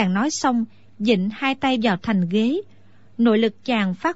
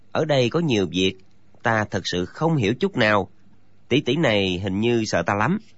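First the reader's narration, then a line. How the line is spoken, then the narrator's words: Muttering. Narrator (Vietnamese): chàng lẩm bẩm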